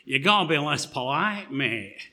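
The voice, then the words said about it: Imitated Manchester accent. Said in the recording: “I'll try and do my best Manchester accent”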